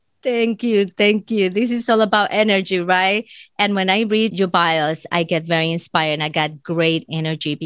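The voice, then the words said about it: Speaks with a non-native accent. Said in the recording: “I love, love, love your accent.”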